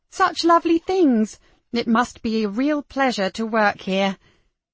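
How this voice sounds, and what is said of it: Put-on posh upper-class accent. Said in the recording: “Even she hardly recognized her own accent. ... the upper-class vowels”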